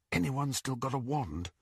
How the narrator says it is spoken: Harry whispered to the other prisoners

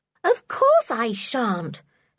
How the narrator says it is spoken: said Anne indignantly

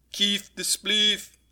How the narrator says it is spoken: they laughed

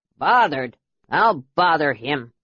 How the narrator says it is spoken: a deep voice grumbled

